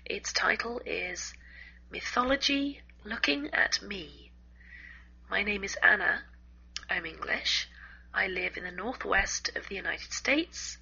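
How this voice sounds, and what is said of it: Hoarse, congested voice. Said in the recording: “I have a sore throat today and a bad cold”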